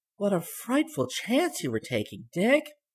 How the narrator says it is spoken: gasped Dorothy

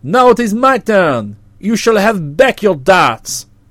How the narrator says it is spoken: cried

